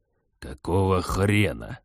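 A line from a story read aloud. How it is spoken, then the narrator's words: Hiss. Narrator (Russian): наконец прошипел он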